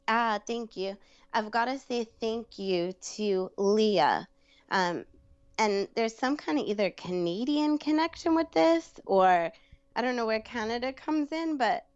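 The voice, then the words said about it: Brooklyn accent. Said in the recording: “my Brooklyn accent is far from Canadian”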